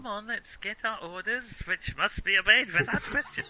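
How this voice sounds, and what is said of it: Put-on German accent. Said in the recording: “You doing a German accent there? ... You're just edging into it without noticing ... everything is going to go into the German accent from now on”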